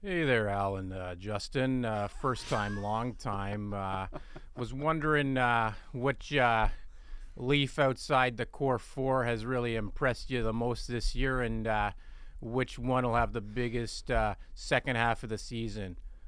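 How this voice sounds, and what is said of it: Strong Minnesota-sounding accent. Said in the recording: “That sounds like a fake accent... Is he from Minnesota?”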